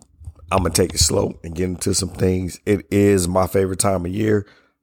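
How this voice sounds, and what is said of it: Worn, strained voice. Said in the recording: “I do want to apologize for my voice. ... a lot of yelling and screaming”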